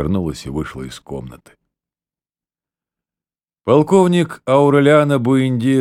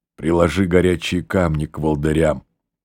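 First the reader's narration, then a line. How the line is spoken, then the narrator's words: Plain. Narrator (Russian): сказала она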